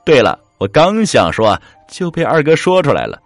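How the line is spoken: Smiling. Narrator (Chinese): 老三笑道

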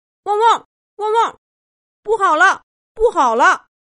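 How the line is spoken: Sudden alarmed barking. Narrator (Chinese): 小狗豆豆忽然汪汪的叫起来

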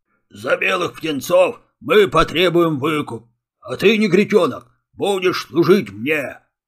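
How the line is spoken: Deep bass voice. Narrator (Russian): пробасил рыжий пес

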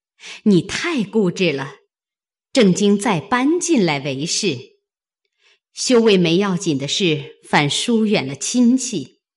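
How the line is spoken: Two women laughing. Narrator (Chinese): 王夫人、凤姐都笑道

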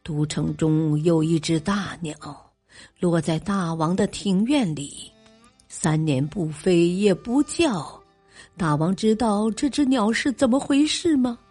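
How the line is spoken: Smiling. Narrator (Chinese): 齐威王笑了笑说

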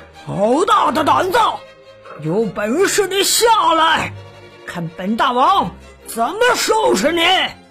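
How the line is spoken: Loud roar. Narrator (Chinese): 狮子…大声吼道

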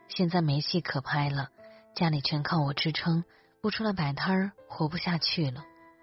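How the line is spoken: Flat, indifferent. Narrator (Chinese): 智叔淡淡的说

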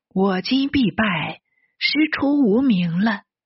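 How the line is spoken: Sighing in resignation. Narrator (Chinese): 安都接得臣主受禅的诏敕，不禁叹息道

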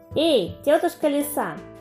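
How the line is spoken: Little mouse shouting. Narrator (Russian): мышонок закричал

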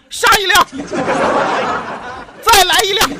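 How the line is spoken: Loud shout. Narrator (Chinese): 大喊一声

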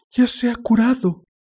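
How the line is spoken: Exclamation. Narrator (Spanish): exclamó

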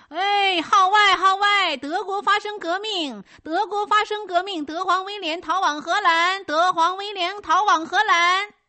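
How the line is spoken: Loud street vendor's cry. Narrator (Chinese): 窗外的报贩大声喊道

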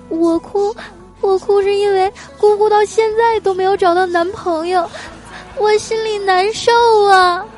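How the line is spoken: Sobbing hard. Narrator (Chinese): 哭得更厉害了，一边哭啊，还一边说

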